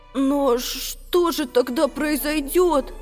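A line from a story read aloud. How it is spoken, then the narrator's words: Trembling question. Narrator (Russian): спросил Макси дрогнувшим голосом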